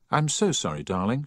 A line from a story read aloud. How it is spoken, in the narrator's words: she said